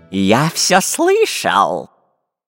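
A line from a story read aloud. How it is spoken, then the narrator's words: Hissing into ear. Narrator (Russian): шипел Дырка на ухо Буль-Булю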